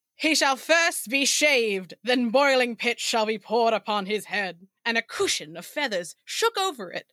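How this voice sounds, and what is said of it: Loud, bad transatlantic accent. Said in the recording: “my weird accent. I can't do a British accent ... Probably just default to a very bad transatlantic one ... I'm going to be loud ... it has to boom”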